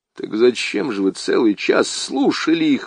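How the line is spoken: Exclaimed in muffled mutter. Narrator (Russian): воскликнул я, глухо пробормотав

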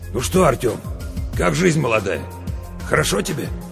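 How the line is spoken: Hoarse voice. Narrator (Russian): а сам так хрипло мне говорит

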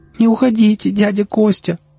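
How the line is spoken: Pleading. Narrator (Russian): взмолилась Вера

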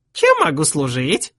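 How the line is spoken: Unexpectedly squeaky voice. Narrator (Russian): спросил он неожиданно писклявым голосом

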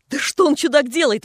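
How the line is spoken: Exclamation. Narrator (Russian): воскликнул наш бледнолицый брат

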